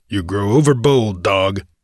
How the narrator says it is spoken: growled the outlaw

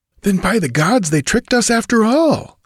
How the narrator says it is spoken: exclaimed Brule in a fury

